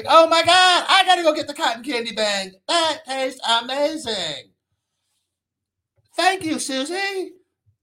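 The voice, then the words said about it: Imitates a social media influencer voice. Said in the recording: “I do that voice in my head whenever I see one of the influencers”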